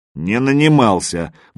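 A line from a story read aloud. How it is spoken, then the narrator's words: Angry objection. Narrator (Russian): возразил Магадан сердито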